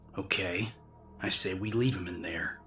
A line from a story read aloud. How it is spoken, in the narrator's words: he growled, with undisguised irritation